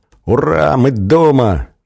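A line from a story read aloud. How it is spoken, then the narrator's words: Joyful overlapping children's shouts. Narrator (Russian): наперебой радостно закричали дети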